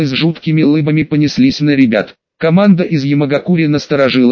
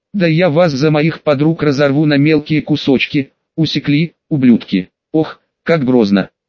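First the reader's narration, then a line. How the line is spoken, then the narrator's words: Laughing. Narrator (Russian): рассмеялся мужик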